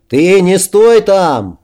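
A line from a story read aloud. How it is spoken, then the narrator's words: Anxious shout. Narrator (Russian): волнуясь, крикнул Пикар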